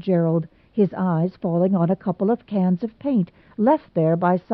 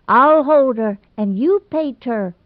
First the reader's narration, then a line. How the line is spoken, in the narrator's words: Ivy shrieked vainly in despair